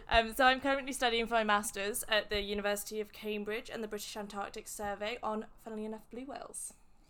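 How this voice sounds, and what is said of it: English accent. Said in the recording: “I'm from England ... This accent thing's going to hang you up, isn't it?”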